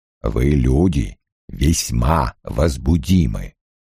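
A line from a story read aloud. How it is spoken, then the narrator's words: Booming bass voice. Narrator (Russian): сказал Лоэл тем же грохочущим басом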